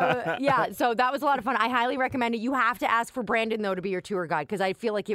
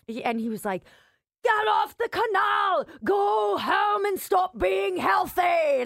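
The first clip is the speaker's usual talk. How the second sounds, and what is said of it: Poor attempt at pirate accent. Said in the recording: “You cannot do a pirate accent ... At all ... I don't know what that was”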